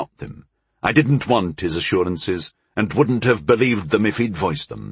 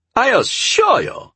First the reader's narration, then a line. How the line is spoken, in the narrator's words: began indignantly